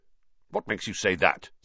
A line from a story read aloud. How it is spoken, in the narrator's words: said Wood testily